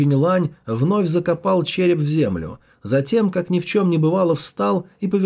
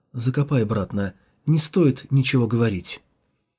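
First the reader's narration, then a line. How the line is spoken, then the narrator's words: Quiet. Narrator (Russian): тихо сказал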